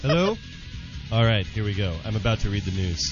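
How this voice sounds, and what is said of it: News anchor character voice. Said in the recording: “In my best John Burgundy voice.”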